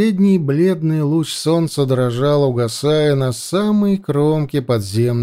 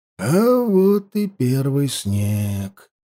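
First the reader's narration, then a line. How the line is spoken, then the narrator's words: Muttered. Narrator (Russian): пробормотал Хаста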